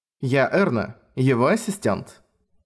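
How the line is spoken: Formal woman's tone. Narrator (Russian): официальным тоном представилась женщина

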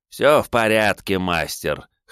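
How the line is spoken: Amused snort. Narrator (Russian): хмыкнул он

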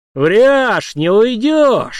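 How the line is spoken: Eager shout. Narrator (Russian): азартно выкрикнул Март

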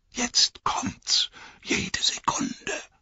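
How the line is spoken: Whispering. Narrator (German): sagte Pippin flüsternd zu Merry

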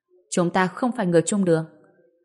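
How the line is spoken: Cold reply. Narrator (Vietnamese): Kỳ Kỳ lạnh lùng đáp

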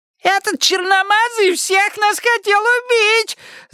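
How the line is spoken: Woman shrieking. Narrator (Russian): завизжала дама

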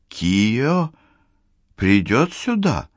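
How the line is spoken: Timid question. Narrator (Russian): робко спросила Сатоко, которую Тадесина сегодня как-то угнетала

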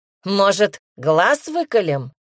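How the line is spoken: Smirking grunt. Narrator (Russian): хмыкнул первый

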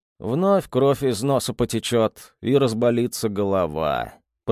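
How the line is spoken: Mumbling. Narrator (Russian): пробормотал он

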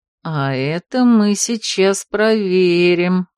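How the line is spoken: Coquettish purr. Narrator (Russian): кокетливо промурлыкал Марс

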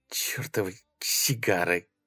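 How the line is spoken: Muttering in silence. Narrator (Russian): пробормотала она в тишине

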